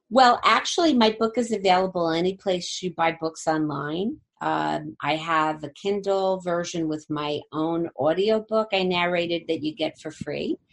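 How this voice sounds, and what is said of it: Jersey City accent. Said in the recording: “my lovely Jersey City accent”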